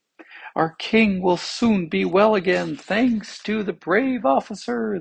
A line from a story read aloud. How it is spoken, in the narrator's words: they cried